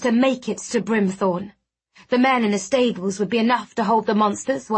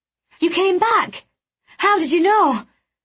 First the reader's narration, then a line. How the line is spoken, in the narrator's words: I gasped as we staggered up the hill